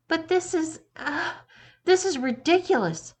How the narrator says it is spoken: he said harshly, his voice wavering despite his best efforts to sound assertive

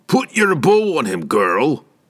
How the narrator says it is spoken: he said loudly enough for Pinochet, once again bobbing in the water, to hear

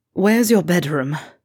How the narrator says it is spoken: Draco asked with a gasping moan

